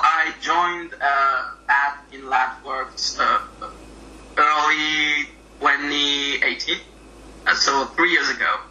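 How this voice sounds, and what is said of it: French accent. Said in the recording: “has a lovely French accent as well, so it's easier to differentiate”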